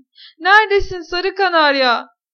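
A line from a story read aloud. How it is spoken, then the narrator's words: Shouting again. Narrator (Turkish): diye yine bağırdı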